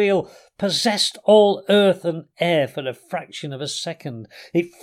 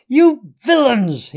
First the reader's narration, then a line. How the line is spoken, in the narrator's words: he shouted